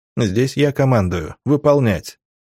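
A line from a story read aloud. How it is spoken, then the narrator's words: Calm. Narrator (Russian): спокойно сказал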